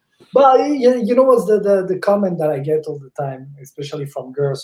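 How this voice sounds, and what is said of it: Italian accent in English. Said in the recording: “I don't speak very well ... It still sound like I came yesterday from Italy ... Like we have an accent.”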